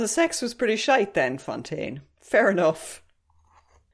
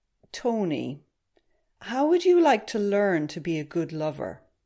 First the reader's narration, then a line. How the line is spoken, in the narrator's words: She said very slowly